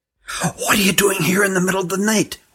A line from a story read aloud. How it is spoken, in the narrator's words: whispered Hutt